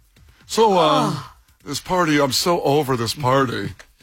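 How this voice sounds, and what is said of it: Spoiled rich kid character voice. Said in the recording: “my Nepo baby impersonation”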